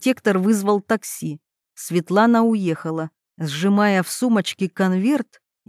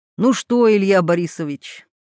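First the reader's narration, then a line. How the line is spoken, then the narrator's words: Gardener's snort. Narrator (Russian): хмыкнул садовник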